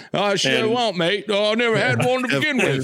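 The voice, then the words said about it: Poor put-on English accent. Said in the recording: “my terrible English accent? ... Do I need to get more proper? Do I need to change my English up?”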